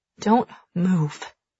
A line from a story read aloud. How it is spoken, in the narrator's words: she hisses